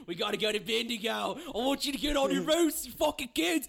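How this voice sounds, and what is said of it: Put-on Australian accent. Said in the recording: “Settle down, Nicole Kidman. ... I'm sorry for any fucking Australian listeners. Y'all have a funny accent.”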